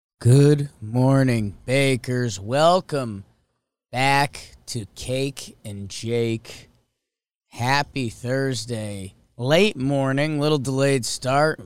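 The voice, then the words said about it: Unusually deep, worn-out voice. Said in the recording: “You can hear it in my voice, slash this is just my voice now... I think this is puberty part two for me, and my voice is just stuck here.”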